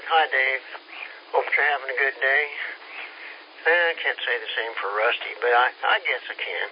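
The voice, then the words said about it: Out of breath, panting. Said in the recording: “Oh, I just climbed the stairs. I'm out of breath.”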